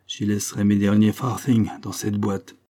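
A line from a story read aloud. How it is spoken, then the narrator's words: Grumbling mechanic. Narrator (French): grommela le garagiste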